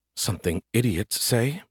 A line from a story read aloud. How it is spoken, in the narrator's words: muttered